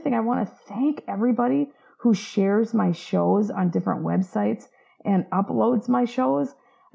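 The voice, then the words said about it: Slightly hoarse voice. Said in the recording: “My voice is a little hoarse. ... I'm still having this lingering cough”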